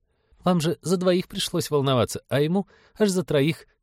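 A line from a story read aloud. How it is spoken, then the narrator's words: Giggling. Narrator (Russian): хихикнула Полина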